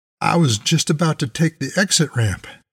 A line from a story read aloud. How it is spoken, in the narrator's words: I said to Moses nervously